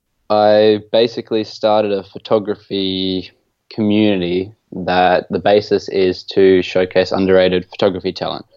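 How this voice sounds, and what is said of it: Australian accent. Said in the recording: “where that accent's from ... I'm based down under in Australia in Brisbane, which is in Queensland”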